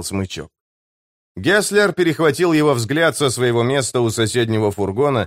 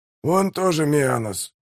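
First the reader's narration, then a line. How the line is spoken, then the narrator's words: Grumbling mutter. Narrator (Russian): пробурчал Бурдук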